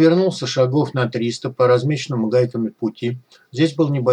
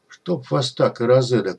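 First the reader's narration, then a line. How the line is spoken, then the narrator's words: Surprised mutter. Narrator (Russian): удивленно пробормотал кот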